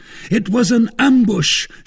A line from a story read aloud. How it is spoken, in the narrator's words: shouted